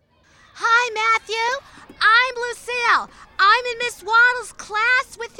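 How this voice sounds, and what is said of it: Talking loudly. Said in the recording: “Why are you talking so loud?”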